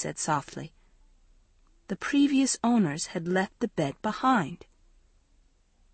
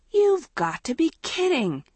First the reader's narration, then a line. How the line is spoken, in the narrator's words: Andrea exclaimed from the doorway